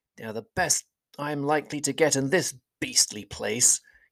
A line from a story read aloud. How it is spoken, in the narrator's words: he muttered